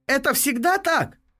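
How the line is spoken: Shouting. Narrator (Russian): прокричала Октавия

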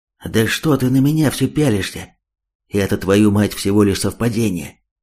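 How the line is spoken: Angry flustered whisper. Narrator (Russian): Зло отчего-то шепотом ответил тот

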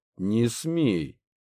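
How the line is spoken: Angry retort. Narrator (Russian): кинул злобно

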